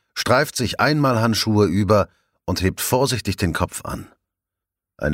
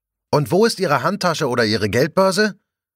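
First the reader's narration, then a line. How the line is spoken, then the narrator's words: Calling after someone. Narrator (German): ruft sie ihm hinterher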